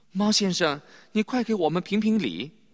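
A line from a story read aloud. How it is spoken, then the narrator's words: Breathless hurried plea. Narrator (Chinese): 小荣家跑得气喘吁吁，他连忙对猫说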